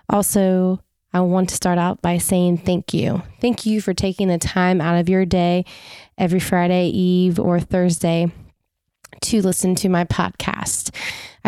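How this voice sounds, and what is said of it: Congested voice from a cold. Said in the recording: “I'm battling a little cold, so my voice might sound a little different”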